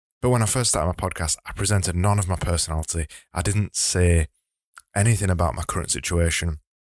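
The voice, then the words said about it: Broad Yorkshire accent. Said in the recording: “my broad Yorkshire accent”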